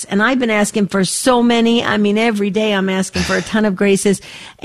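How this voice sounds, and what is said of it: Excited, energetic speaking voice. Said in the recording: “you can hear the excitement in my voice”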